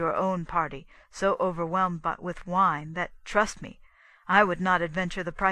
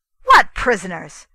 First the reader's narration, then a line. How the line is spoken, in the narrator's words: cried the prince